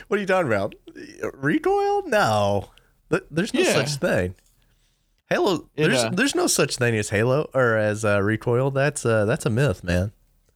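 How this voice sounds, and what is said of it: Sarcastic, mock-indignant delivery. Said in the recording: “I'm being sarcastic.”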